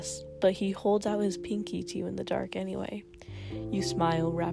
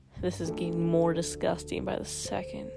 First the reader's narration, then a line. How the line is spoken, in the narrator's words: he murmurs against your finger